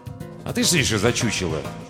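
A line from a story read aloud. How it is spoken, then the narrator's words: Wary snapping. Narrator (Russian): огрызнулся Крейвен, немного насторожившись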